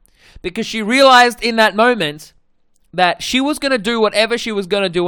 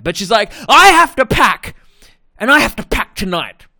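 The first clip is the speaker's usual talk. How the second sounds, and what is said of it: Imitates another person's voice. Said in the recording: “my impression of my sister ... That's not what she sounds like, by the way.”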